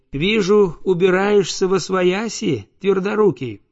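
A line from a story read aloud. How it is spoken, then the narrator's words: Joyful. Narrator (Russian): радостно сказала она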